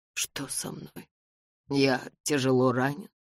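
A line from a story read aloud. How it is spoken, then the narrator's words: Mumbled. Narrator (Russian): пробормотал мистер Мэзен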